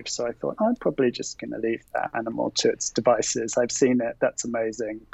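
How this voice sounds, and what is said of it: Speaks with a distinct accent. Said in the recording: “I love your accent, by the way. Can you say chompers one more time for me?”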